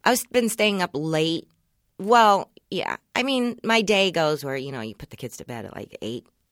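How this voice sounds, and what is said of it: Tired-sounding voice. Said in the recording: “I sound very tired ... very tired.”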